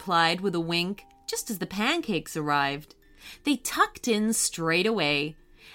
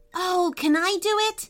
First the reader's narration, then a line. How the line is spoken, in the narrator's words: asked MJ excitedly